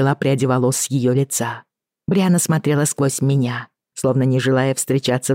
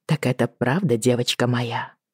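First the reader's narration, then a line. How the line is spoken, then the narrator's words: Quiet question. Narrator (Russian): тихо спросила я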